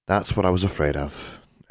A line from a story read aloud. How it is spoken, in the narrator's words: Anna sighed